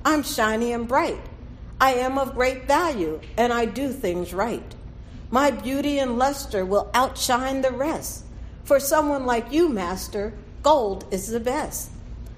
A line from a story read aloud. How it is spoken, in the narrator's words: cried the gold one